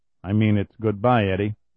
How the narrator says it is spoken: he added quietly

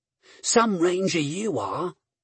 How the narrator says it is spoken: she muttered to herself

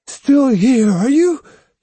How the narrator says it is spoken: he cried

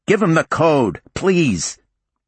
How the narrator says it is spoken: The guy with her, Don apparently, shouted to Justine

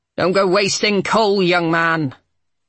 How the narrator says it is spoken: She said rather crossly

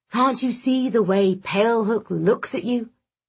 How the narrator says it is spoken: He laughed

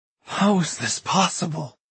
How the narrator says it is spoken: She rasps

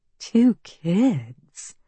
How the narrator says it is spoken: Constance says, her voice soothing

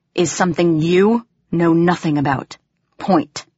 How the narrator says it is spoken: she said tightly

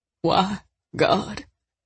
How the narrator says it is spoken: he moaned

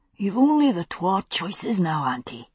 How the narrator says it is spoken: he murmured in my ear

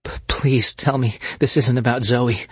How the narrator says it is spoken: stammered, pushing against the knot that was forcing its way up her throat

